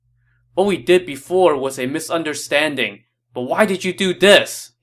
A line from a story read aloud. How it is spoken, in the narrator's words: he asked